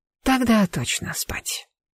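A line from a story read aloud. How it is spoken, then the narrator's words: Male whisper. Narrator (Russian): Мужской шепот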